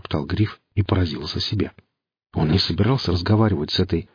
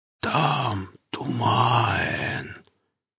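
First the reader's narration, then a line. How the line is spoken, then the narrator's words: Creepy drawn-out whisper. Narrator (Russian): послышался мерзкий протяжный шепоток, от которого по спине пошел мороз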